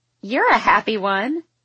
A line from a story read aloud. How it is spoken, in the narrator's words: Quinn giggles